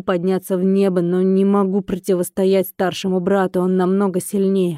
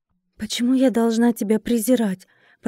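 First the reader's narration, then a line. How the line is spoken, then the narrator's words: Whisper. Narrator (Russian): прошептала я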